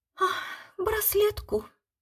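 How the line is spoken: Wife sighing. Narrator (Russian): вздохнула жена

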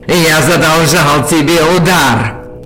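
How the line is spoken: Booming, strange muffled overtone. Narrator (Russian): Прогремел со странным обертоном, плывущим из-за его лицевой пластины

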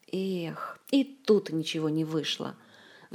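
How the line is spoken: Annoyed sigh, no resentment. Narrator (Russian): вздохнул сосед, не скрывая досады, но и не выказывая никакой обиды

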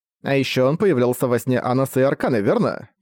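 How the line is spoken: Plain. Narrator (Russian): спросила Саша

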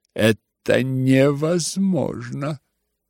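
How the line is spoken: Drawl. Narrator (Russian): протянул Евгений Павлович

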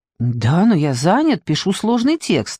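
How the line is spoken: Flustered. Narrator (Russian): растерянно ответил Виторио

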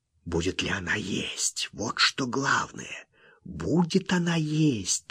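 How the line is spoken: Anxious whisper. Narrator (Russian): тревожно шептал он

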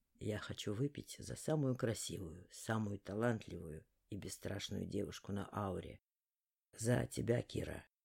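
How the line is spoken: Velvety voice. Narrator (Russian): Бархатным голосом сказал Лаор

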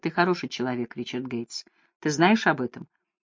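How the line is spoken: Tender. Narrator (Russian): она ласково сказала

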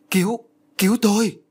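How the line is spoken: Relieved cry for help. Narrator (Vietnamese): Hiền mừng rỡ liền kêu lên

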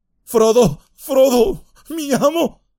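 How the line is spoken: Shouting, nearly sobbing. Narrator (Spanish): gritó, casi sollozando

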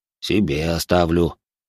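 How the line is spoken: Grumbled. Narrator (Russian): буркнул Боря

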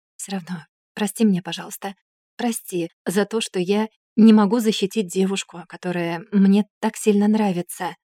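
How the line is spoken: Whisper. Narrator (Russian): прошептал

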